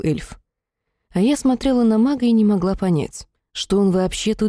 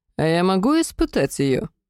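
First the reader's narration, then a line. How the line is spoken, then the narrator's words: Uncertain question. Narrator (Russian): неуверенно спросил Сехарель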